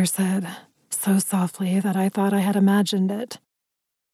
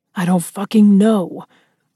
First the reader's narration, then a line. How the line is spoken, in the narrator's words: Ryder growled